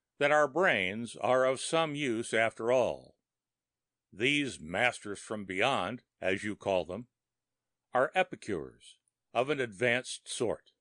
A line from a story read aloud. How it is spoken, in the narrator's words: I jested grimly